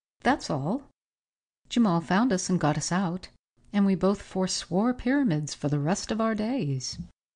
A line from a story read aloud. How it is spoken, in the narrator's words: Forsyth's face was all aglow with the excitement of his story, he added with a quick laugh